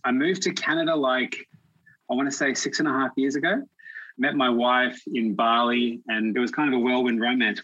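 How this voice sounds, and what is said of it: Australian accent. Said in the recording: “you can probably tell with the accent, I'm from Australia”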